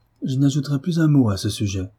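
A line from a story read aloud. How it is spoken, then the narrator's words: Dignified, firm reply. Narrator (French): répondit Marie d'un ton digne et ferme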